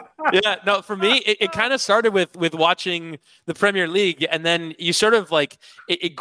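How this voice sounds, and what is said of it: Usual voice. Nothing is said of it.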